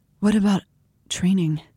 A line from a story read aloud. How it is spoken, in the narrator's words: She breathed